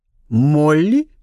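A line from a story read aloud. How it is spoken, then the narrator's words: Two voices exclaiming together. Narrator (Russian): Одновременно воскликнули виконтесса и Элджи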